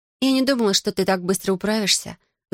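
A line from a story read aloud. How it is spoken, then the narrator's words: Sighing. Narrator (Russian): вздохнула я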